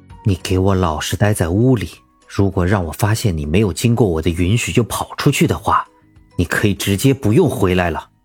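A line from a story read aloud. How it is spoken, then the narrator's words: Stern low warning. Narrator (Chinese): 唐盛沉声警告道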